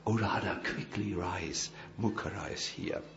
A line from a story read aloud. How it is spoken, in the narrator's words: whispers in her eyes, in her ears